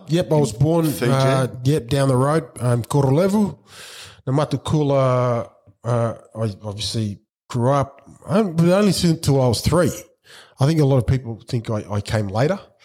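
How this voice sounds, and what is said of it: Australian accent. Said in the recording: “So hence the Aussie accent, I guess. So I've spent the majority of my life here.”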